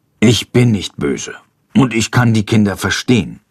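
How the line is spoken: Murmured. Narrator (German): murmelt er

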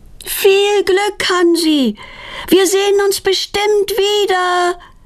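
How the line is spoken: Calling after someone. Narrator (German): ruft Petronella ihm nach

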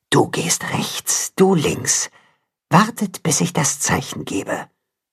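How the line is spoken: Whisper. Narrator (German): hört er die Wolfsmutter flüstern

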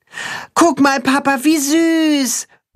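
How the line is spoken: Boy calling out. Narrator (German): ruft der Junge seinem Vater zu

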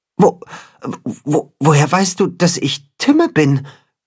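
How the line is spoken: Creature stammering. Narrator (German): stottert das Katzenhuhn

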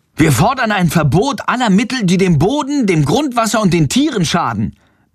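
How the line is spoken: Loud interjection. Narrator (German): mischt Friedrich sich laut ein

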